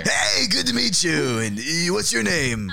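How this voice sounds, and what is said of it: Weird smoker's character voice. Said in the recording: “everyone has such fucking weird voices today ... I don't have a weird voice. I just lived through the 80s, and we smoked a lot back then.”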